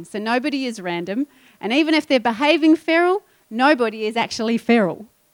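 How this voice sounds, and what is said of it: Speaks with a regional accent. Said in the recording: “if you didn't catch my accent”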